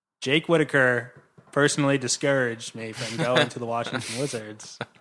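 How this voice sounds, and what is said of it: Kevin Durant impression. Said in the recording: “your Kevin Durant impression”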